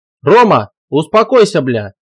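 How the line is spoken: Shout. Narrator (Russian): закричал он

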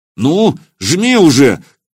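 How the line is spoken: Shout. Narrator (Russian): крикнул Илья

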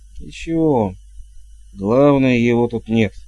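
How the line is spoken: Gloomy. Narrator (Russian): мрачно проговорила матушка

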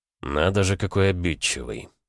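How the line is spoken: Through clenched teeth. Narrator (Russian): процедил я сквозь зубы

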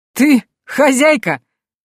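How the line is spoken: Bearded man's loud laugh. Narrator (Russian): бородач захохотал, запрокинув голову

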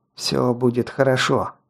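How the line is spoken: Pained mutter. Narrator (Russian): пробормотал и скривился от боли

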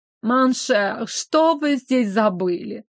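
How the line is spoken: Nasal drawl. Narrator (Russian): протянул он гнусавым голосом

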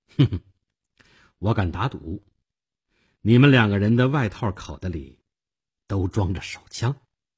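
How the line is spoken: Faint casual smile. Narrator (Chinese): 我淡淡的一笑

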